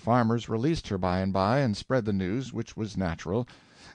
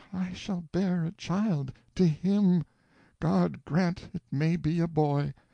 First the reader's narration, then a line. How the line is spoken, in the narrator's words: She moaned to herself